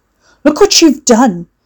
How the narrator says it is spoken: Hugo shouted

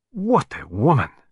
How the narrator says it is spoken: cried Poirot enthusiastically

